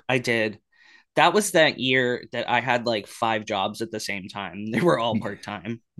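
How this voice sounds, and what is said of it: Lower voice, sounds like a cold. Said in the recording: “I have a cold. My voice is a little bit lower right now.”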